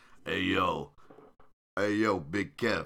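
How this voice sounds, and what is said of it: Scott Hall impression. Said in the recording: “my little Scott Hall impersonation”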